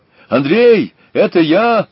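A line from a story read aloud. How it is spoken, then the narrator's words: Shout behind door. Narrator (Russian): крикнул голос из-за двери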